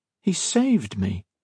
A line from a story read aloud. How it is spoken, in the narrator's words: Modo said weakly